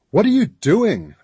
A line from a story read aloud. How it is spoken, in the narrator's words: I yelled